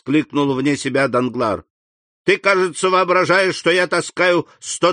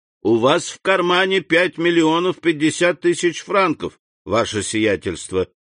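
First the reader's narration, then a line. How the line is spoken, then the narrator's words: Plain. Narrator (Russian): сказал Пепину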